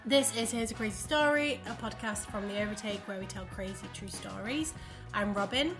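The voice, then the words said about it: Congested voice from a cold. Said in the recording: “Apologies in advance, I've got a cold.”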